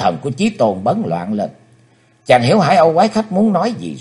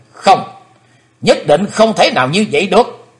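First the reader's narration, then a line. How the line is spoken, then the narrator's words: Sudden shout. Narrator (Vietnamese): Chí Tôn bỗng thét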